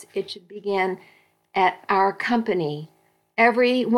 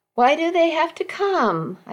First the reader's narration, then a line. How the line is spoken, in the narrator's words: whined